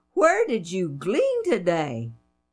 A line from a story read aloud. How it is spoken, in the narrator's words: she exclaimed